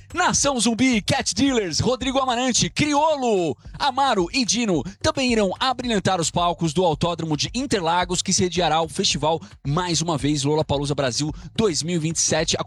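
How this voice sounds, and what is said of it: Radio announcer voice. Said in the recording (Portuguese): “com voz de locutor”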